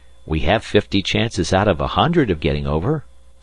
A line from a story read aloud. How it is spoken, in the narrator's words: said one